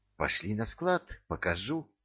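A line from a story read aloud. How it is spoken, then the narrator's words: Whispering. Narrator (Russian): прошептал Беляев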